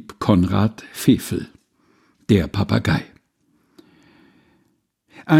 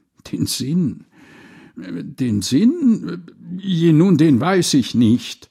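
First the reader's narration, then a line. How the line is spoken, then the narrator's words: Stuttering. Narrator (German): so stotterte der arme Wicht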